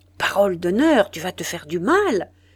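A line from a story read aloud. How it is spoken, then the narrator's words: Exclaimed. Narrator (French): s'écria M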